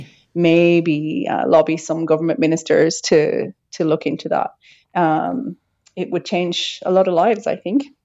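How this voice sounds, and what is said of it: Speaks with a pleasant accent. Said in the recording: “Beautiful accent too.”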